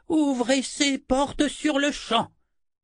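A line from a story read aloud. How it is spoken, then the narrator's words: Shouting. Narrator (French): cria Zed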